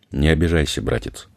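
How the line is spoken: Sighing. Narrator (Russian): Том вздохнула

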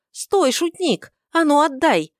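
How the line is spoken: Yelled. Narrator (Russian): Завопила она

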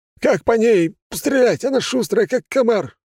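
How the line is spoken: Soldier's shout. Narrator (Russian): выкрикнул другой боец

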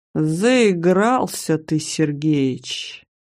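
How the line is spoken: Man's warning drawl. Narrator (Russian): протянул мужчина полным молчаливого предупреждения тоном

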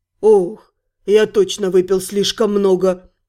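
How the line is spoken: Flat statement. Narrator (Russian): констатировал он

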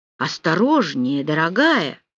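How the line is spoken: Exclaiming. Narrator (Russian): воскликнул Рауль

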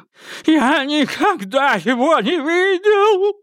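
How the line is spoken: Shrieked. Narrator (Russian): взвизгнул убийца

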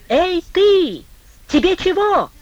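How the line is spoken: Exasperated shout. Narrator (Russian): Типуев не выдержал и крикнул

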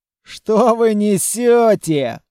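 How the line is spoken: Scoffing. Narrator (Russian): хмыкнул Айден

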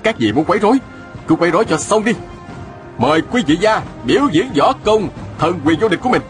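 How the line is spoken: Shouting. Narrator (Vietnamese): la lên

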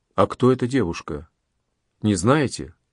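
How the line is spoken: Quiet question. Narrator (Russian): Анри опять тихонько спросил Монтегю

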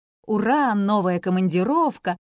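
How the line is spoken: Cheerful announcement. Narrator (Russian): радостно сообщала

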